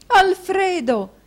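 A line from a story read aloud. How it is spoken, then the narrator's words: Wife's exclamation. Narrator (Italian): esclamò la moglie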